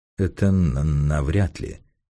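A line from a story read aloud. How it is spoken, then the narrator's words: Gloomy, familiar voice. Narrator (Russian): мрачно ответил голос, который Масса узнал бы из 1000 и 1000, даже и без характерного заикания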